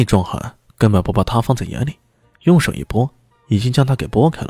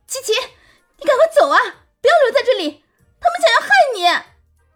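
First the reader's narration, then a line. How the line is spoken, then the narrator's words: Loud, urgent. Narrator (Chinese): 大声说道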